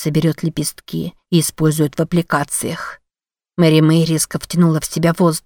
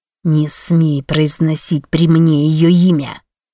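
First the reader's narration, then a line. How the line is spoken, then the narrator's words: Hissing. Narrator (Russian): Зашипела она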